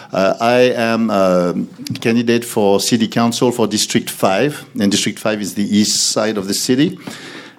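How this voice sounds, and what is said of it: French accent. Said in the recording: “that's why I speak like this ... we have a different accent. So really, I came from France”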